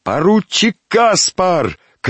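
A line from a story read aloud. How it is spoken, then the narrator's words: Shout. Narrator (Russian): крикнул один из подбежавших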